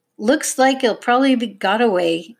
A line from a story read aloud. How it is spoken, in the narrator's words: he grumbled